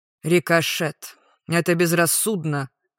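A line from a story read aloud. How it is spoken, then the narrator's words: Scoffing teacher. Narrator (Russian): хмыкнул преподаватель манер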